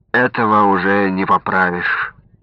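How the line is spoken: Dry, old man's remark. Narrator (Russian): сухо заметил старик

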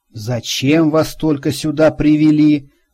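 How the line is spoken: Disappointed, through clenched teeth. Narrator (Russian): разочарованно процедил он

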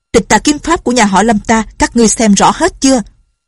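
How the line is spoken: Sudden shout. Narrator (Vietnamese): Lâm Bình Chi quát

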